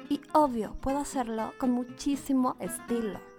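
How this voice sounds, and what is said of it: Put-on Mexico City chilango accent. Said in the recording (Spanish): “¿Te manejo también lo que es el acento chilango?”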